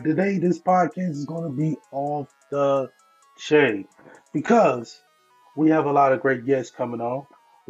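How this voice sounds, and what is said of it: Hoarse, fading voice. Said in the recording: “I feel like I'm losing my voice.”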